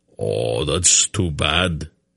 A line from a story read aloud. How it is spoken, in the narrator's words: Greldic grunted sourly